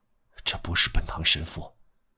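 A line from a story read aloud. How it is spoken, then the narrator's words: Murmuring. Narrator (Chinese): 喃喃地说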